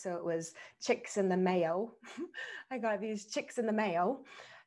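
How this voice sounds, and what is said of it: Put-on Australian accent. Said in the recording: “it's read in an Australian accent”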